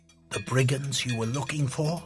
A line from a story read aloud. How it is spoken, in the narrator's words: Thelar whispered